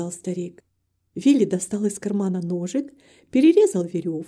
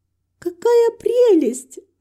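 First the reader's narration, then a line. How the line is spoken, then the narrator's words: Joyful exclamation. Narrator (Russian): радостно воскликнула Герти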